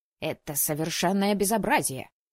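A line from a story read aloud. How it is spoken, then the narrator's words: Gruff angry bark. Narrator (Russian): рявкнул незнакомец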